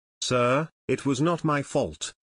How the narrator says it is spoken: Captain Robinson replied calmly

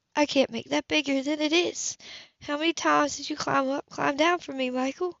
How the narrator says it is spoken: she sighed

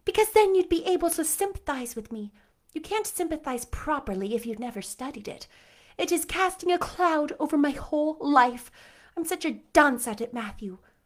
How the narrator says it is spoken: sighed Anne

